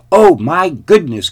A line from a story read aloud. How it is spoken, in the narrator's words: cried Goldilocks